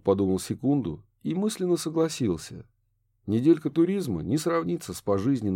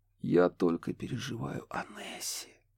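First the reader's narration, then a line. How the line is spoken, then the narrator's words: Barely audible whisper. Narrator (Russian): едва слышно прошептала Риана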